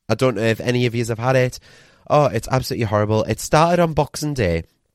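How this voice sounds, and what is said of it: Sick, unwell-sounding voice. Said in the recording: “You can probably hear it in my voice, but I've been ill again. ... I'm still really poorly with that bloody super flu”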